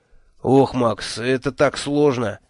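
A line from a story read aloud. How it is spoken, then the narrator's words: Sigh. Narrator (Russian): вздохнул мой шеф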